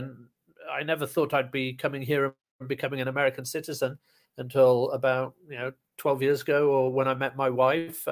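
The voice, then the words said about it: British accent. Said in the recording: “I love your accent. So obviously you're not from New Jersey. ... I'm originally from the UK.”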